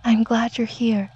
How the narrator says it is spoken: Angela whispered

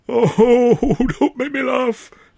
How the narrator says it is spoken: I cried, grabbing at my poor ribs

